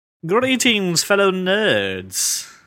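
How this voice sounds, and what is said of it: Put-on accent. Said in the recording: “Where'd you get that accent? Where'd that come from? ... I apologize to everyone whose ears were offended by what I just said”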